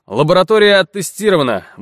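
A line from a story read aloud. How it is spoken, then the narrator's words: Brisk, cheerful report. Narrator (Russian): бодро доложил Рожнов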